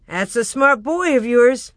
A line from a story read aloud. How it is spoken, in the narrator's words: The liveryman laughed and said to Father